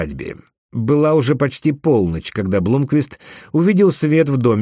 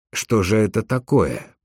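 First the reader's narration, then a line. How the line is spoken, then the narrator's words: Muttering. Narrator (Russian): пробормотал он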